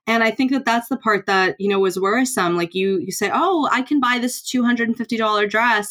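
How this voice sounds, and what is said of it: American accent. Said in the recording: “you can tell from the accent, I'm from the United States”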